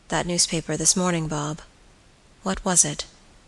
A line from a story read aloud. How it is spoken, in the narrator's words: in a hesitating manner, said quietly